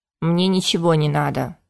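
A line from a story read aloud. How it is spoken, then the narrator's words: Grumbling. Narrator (Russian): проворчал мэтр Ушеп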